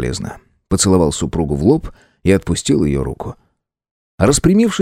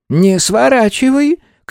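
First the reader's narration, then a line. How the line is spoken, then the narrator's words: Shout. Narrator (Russian): крикнула тетя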